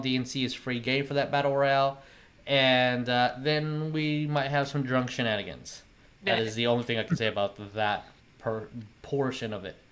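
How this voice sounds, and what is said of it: Slightly nasal, congested voice. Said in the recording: “I am slightly nasally today ... if you hear the sniffles”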